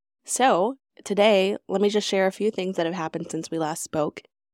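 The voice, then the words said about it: Voice sounds sick from a cold. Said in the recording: “hear it in my voice, so forgive me if that comes through, but I'm a little bit sick. I'm getting over just regular cold”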